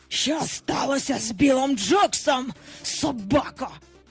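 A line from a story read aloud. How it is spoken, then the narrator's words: Hissed. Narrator (Ukrainian): просичав Гак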